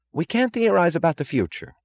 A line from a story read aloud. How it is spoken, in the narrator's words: cried Wesley Mooch